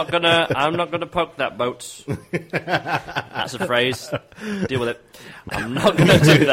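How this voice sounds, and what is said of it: Usual voice. Nothing is said of it.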